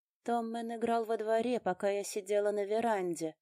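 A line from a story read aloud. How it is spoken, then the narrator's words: Woman's sepulchral voice. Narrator (Russian): за могильным голосом рассказывала женщина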